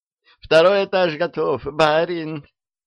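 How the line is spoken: Joyful call from above. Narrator (Russian): радостно сообщила сверху Дуняшка

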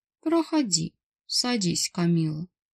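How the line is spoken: Calm. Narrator (Russian): вполне спокойно произнес босс

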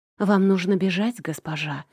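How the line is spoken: Mumbled, turned away. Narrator (Russian): пробормотала она, так и не повернувшись ко мне

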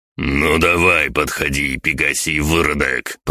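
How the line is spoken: Growling. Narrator (Russian): прорычал Квиннель

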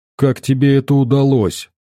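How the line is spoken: Muffled, unexpectedly bold. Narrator (Russian): Глухо и сам не ожидая от себя такой дерзости, спрашивает Шакст у беса

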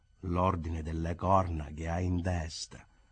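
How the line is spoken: Murmured in unison. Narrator (Italian): Concordi mormorarono

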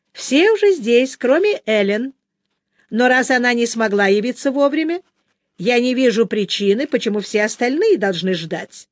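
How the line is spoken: Plain. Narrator (Russian): сказала она мужу

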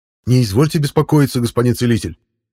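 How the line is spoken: Babbling from behind. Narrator (Russian): залепетал за спиной Раут

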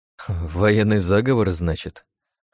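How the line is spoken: Snorting. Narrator (Russian): хмыкнул Подольский

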